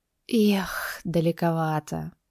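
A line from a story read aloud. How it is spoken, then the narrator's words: Exhaled remark. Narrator (Russian): выдохнула она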